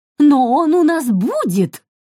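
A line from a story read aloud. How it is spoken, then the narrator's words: Barking. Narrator (Russian): рявкнула Брит-Мари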